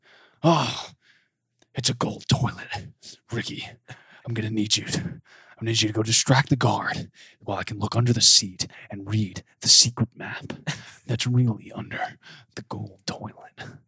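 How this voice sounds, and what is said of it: Nicolas Cage impression. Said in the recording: “Do a Nicolas Cage impression?”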